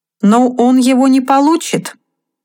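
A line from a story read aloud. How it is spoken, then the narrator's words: Laughing exclamation. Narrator (Russian): смеясь, воскликнул лорд Артур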